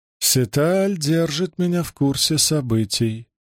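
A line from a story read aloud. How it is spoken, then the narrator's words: Cold singsong. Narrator (Russian): произнесла Туон, холодно и нараспев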